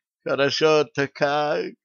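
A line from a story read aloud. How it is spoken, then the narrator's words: Voluptuous moan. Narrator (Russian): сладострастно простонала Лилиан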